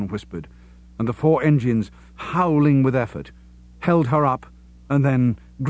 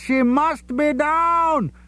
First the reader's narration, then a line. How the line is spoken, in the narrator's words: Job called back, both of them screaming at each other with terror and triumph